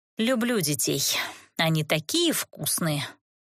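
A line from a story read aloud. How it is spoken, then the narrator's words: Heartfelt mutter. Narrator (Russian): с чувством пробормотала я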